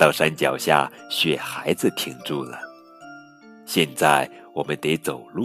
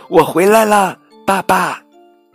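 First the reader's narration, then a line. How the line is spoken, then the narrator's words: Calling out loudly. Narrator (Chinese): 小兔朝前方呼喊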